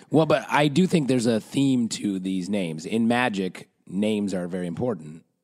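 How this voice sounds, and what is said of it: Damaged, rough-sounding voice. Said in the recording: “that's where my voice is fucked up”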